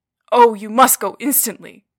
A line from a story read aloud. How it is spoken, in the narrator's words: cried the two men